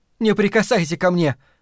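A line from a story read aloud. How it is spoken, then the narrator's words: Shout. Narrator (Russian): крикнула она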